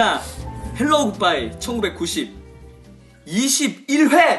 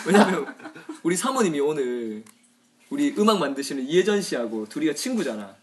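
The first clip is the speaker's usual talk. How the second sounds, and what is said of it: Speaks in Korean regional dialect. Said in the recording (Korean): “사투리로 그냥 막 해볼까?”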